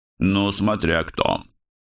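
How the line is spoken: Grunted. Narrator (Russian): хмыкнул Дирбс

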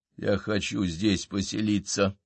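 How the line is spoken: Quiet. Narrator (Russian): тихо сказал Мортон

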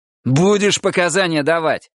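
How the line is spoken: Barking. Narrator (Russian): рявкнул дежурный

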